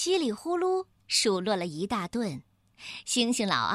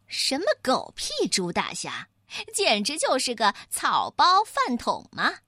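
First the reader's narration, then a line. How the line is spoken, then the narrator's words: Sneering. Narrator (Chinese): 星星老二冷笑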